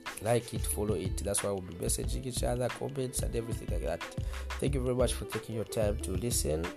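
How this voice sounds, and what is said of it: Voice sounds unwell, not normal. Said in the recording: “Pardon my voice. I know it's not sounding as normal as possible, yeah, because I've got, you know, something happening to me.”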